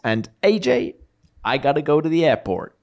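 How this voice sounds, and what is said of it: Put-on American accent. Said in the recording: “I don't know why I did an American accent.”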